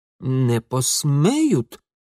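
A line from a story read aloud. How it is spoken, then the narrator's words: Uncertain mutter. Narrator (Russian): неуверенно пробормотал Ингвар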